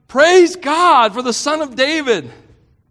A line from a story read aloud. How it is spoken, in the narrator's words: Kids running around shouting